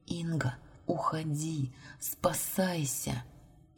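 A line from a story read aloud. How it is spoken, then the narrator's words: Barely audible whisper. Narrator (Russian): Еле слышно прошептала Валерия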